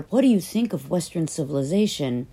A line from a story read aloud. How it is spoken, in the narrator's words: One day, a reporter cried out